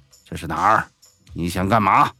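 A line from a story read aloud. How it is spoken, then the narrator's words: Angry. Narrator (Chinese): 怒视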